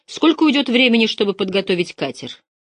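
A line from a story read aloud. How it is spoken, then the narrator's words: Sharp, commanding. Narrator (Russian): Вавилов спросил резко и начальственно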